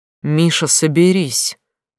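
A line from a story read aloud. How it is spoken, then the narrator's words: Stern voice on phone. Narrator (Russian): грозно сказал Стас, разговаривая по телефону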